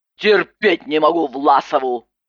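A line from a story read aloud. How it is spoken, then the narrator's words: Barked. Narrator (Russian): Рявкнула Иванова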